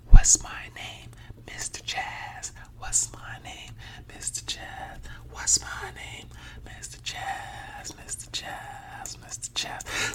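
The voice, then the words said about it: Whispering. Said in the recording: “now we're going to whisper”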